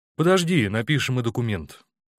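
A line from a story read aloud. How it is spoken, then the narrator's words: Plain. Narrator (Russian): ответил ему Корчагин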